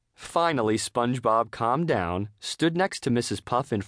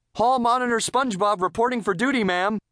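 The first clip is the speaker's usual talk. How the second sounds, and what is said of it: Drill sergeant voice. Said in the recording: “in a drill sergeant voice.”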